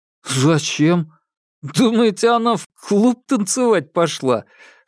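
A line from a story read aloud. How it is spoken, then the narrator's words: Laughing. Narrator (Russian): Саша позволил себе рассмеяться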